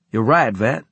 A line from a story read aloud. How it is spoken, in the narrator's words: I said